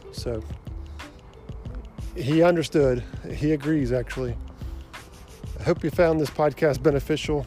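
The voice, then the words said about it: Slightly out of breath. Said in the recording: “I'm a little out of breath as I've been huffing it to get back to the house”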